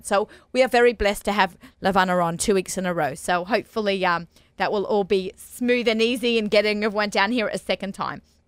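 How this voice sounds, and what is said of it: Australian accent. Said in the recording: “I'm from Sydney, Australia. If you notice, our accents might get thicker”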